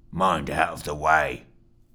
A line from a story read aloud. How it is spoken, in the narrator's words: snarled one of the men